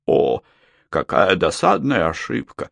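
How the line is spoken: Muttered. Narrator (Russian): бормотал он

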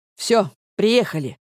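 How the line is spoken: Sharp, angry. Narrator (Russian): говорю я резко и зло

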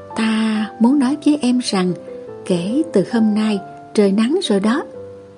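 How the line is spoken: Whispered. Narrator (Vietnamese): giọng thì thầm

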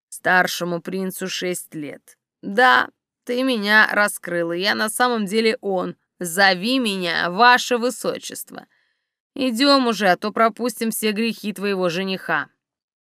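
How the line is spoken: Ingratiating insinuating tone. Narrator (Russian): вкрадчивым тоном сказал

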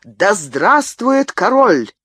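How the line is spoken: Courtier's exclamation. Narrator (Russian): первый придворный сановник воскликнул

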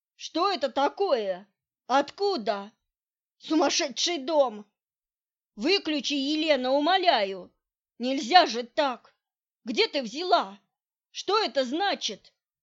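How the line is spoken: Nonstop yelling. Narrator (Russian): Он непрерывно орал

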